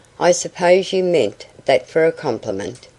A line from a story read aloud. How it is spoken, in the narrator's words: she said